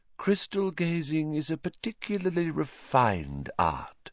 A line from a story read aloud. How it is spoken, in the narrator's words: she said dreamily